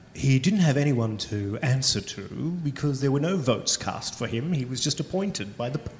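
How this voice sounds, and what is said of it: Impression of David Marr. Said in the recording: “my David Marr impression”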